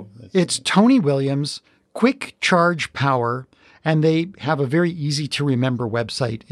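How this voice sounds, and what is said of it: Usual voice. Nothing is said of it.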